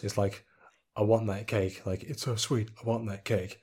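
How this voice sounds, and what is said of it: Flat monotone delivery. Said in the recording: “in my monotone voice ... because I won't sell it at all”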